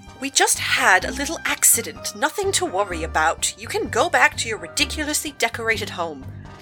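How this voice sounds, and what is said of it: Fake posh British accent. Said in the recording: “That silly, fake British accent isn't fooling anyone”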